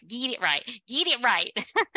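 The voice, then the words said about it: Put-on Southern US accent. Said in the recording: “I'm bringing out my Southern accent ... it's hard to lose that Southern accent”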